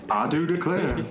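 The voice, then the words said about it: Weak attempt at a Southern accent. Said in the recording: “I can't do a southern accent.”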